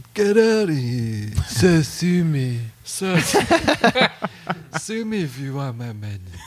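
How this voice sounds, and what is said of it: Tired-sounding imitation of another person's voice. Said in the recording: “my Trump impression ... It's like a very tired Trump.”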